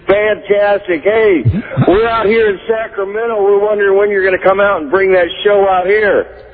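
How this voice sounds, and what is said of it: Midwestern American accent. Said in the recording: “it sounds like you might have a Midwest accent”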